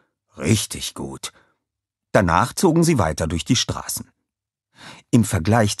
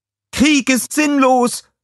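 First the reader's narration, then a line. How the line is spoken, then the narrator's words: Girl calling out. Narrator (German): rief ein Mädchen mit Blumen in den Haaren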